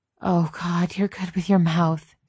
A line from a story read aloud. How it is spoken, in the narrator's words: gasped Genevieve